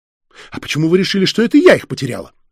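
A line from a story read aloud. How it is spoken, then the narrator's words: Indignant widow snapping. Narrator (Russian): возмущенно бросила вдова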